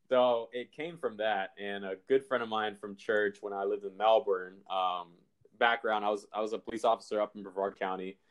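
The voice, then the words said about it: Southern US country accent. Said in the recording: “you have a country accent, you're from Georgia”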